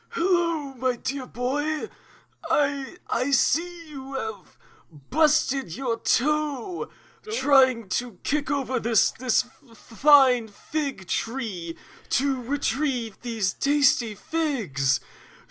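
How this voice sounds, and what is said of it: Kindly old wizard voice. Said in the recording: “to do a different voice for this wizard ... a kindly wizard”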